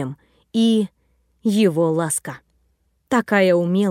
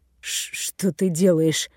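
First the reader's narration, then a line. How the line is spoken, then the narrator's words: Strained breathless exhale. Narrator (Russian): С трудом выдохнул Наг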